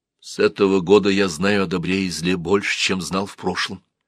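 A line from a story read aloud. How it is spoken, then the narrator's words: Calm reply. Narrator (Russian): ответил Сенмут спокойно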